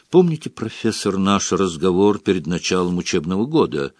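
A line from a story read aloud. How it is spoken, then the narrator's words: Barely audible question. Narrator (Russian): спросил Снег, едва слышно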